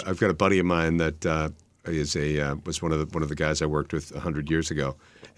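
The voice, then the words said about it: Strong New England accent. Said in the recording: “you still got that great New England accent”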